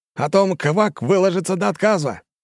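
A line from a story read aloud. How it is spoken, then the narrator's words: Barked in chorus, mimicking. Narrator (Russian): хором рявкнули айнарцы, копируя манеру речи лягушонка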